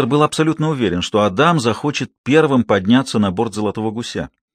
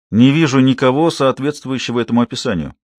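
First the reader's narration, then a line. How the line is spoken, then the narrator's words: Plain. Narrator (Russian): ответила Хейзел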